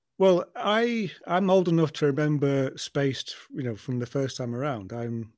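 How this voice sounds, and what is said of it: London accent. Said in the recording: “I'm actually a Londoner born and bred, you see, as you can probably tell from my accent.”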